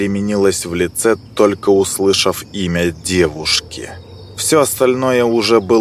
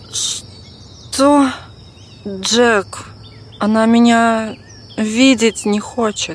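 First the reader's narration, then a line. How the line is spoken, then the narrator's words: Dejected tone. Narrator (Russian): подавленным тоном ответила она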